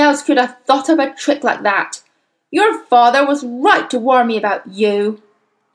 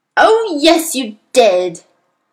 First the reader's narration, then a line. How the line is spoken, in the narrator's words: the Trunchbull roared back